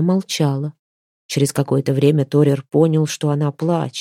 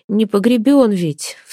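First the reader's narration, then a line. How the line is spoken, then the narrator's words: Sobbing girl. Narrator (Russian): всхлипывала девушка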